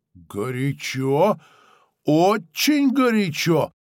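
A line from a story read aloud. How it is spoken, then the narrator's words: Exclaiming. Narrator (Russian): Азвистополу воскликнул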